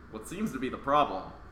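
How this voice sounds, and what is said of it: Cartoon doctor character voice. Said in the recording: “I'm just doing the voices ... It's Dr. Mario. He's a doctor.”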